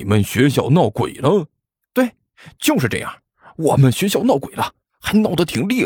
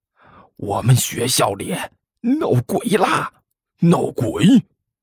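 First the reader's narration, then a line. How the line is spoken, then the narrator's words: Hushed mysterious whisper. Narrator (Chinese): 压低声音，装出一副神秘的模样，低声说道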